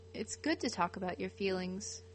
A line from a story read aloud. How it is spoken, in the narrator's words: Kurt says calmly